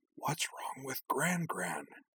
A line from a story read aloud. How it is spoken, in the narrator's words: Karana stage whispered to Azana